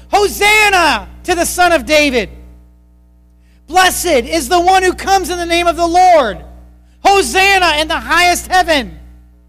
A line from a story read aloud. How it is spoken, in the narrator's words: They all shouted